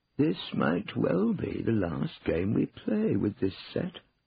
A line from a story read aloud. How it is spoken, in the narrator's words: said Cornelius wistfully